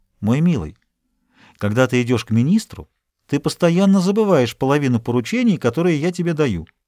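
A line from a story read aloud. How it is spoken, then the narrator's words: Calm objection. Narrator (Russian): Она спокойно возразила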